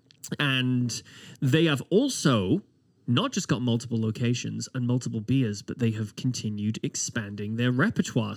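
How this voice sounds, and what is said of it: British accent. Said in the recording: “It's my British accent.”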